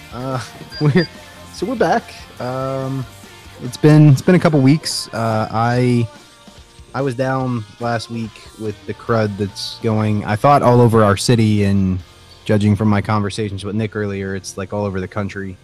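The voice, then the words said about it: Sick voice, heavy breathing. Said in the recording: “about lost my voice ... my lungs are all crackling and whatnot ... You'll just have to listen to me breathe heavily.”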